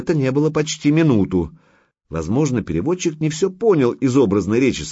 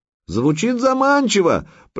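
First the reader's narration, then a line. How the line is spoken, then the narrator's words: Shouted reply. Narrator (Russian): прокричал в ответ Санек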